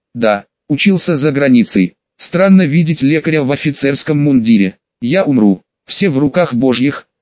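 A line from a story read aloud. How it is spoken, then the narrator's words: Plain. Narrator (Russian): ответил я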